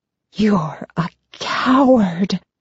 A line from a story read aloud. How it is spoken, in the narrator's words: I whisper